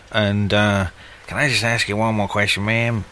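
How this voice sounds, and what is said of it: Columbo impression. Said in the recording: “Oh, Columbo. ... Columbo. That must have been a very good impersonation”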